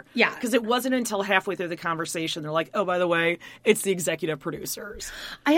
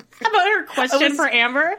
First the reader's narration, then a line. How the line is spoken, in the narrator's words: I laughed out loud in a very horrifically sad way